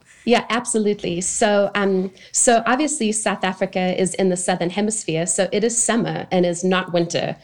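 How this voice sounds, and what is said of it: South African accent. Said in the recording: “you have a bit of an accent that's a little bit different than mine and Kelly's, like, Southern drawl. You are from South Africa.”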